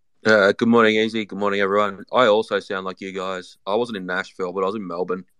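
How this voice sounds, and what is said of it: Australian accent. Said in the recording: “You just sound Australian.”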